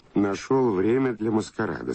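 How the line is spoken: Plain. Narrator (Russian): сказала Кора

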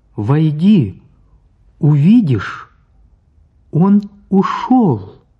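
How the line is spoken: Said loudly. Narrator (Russian): Оля сказала громко

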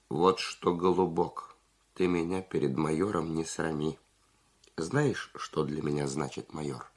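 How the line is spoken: Calm but firm. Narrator (Russian): Зубарев спокойно, но решительно сказал

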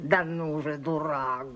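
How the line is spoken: Hoarse voice. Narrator (Russian): говорил сиплый голос

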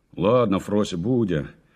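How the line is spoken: Displeased voice. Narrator (Russian): недовольным голосом сказал дядя Ваня

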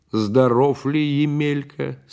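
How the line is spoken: Plain question. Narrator (Russian): спросил Петр Иванович

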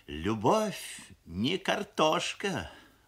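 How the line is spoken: Sighing mother. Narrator (Russian): вздохнула мамаша, шеф-повар фабрики кухни номер 7

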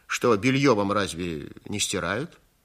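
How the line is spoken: Plain. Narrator (Russian): сказал он

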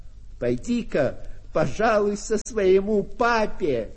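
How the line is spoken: Shouted. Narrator (Russian): кто-то крикнул

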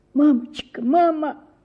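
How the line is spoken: Sobbing. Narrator (Russian): сказала я, всхлипывая

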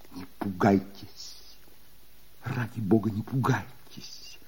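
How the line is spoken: Clear, quiet voice. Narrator (Russian): Сказал он внятным и тихим голосом

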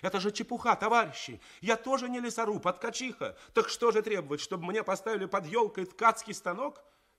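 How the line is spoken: Ringing shout. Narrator (Russian): Тоня Васяева закричала звенящим голосом

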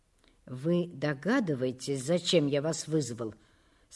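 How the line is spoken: Elderly man, weak muffled voice. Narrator (Russian): спросил директор, пожилой, с ватным, слабым голосом человек

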